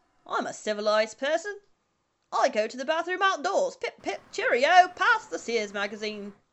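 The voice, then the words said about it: Exaggerated put-on English accent. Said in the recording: “Civilized is a fun word to say in an English accent ... Is that what you think English people sound like?”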